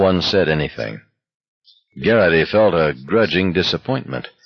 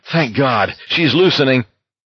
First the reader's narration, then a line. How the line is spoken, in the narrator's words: Curly exclaimed